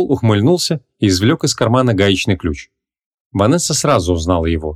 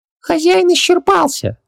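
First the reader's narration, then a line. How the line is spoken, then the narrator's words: Squeaky voice. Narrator (Russian): пропищал Хубаксис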